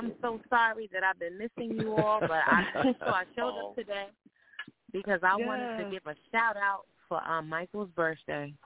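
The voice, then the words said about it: Noticeable regional accent. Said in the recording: “I love your accent.”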